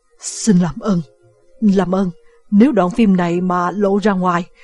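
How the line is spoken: Panicked stammering. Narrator (Vietnamese): Solomon hoảng loạn, ông lắp bắp nói

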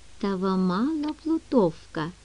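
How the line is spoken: Whisper, man. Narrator (Russian): прошептал он

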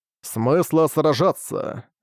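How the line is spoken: Mumbled. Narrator (Russian): Пробормотал он

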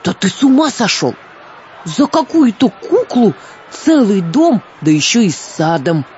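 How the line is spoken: Outraged exclamation, gentleman. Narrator (Russian): возмущенно воскликнул господин

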